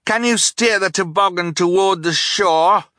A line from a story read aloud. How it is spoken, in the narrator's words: Klaus yelled over the sound of the stream